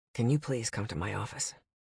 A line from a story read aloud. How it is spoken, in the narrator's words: Damien said quietly